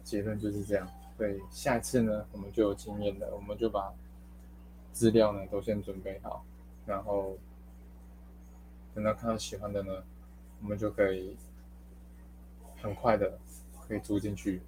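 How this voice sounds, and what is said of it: Speaking quietly, low volume. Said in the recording (Chinese): “有点小声哦，应该应该不知道大家听不听得到……所以没有办法太大声的讲”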